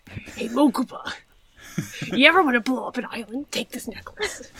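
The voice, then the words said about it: Odd cartoon character voice. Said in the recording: “What is that voice? ... That's like Turtle. Weevil Underwood.”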